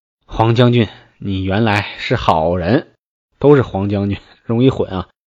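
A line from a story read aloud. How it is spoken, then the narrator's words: Sighing. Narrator (Chinese): 黄滚听罢，叹曰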